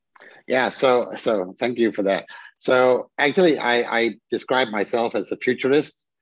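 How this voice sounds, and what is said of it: Danish accent in English. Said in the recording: “the people who can pick up that accent, he's a Dane by birth, but is living and working from Switzerland”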